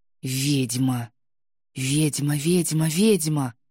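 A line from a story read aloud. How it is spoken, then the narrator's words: Crowd whispering. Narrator (Russian): пробежал в толпе ветерком шепоток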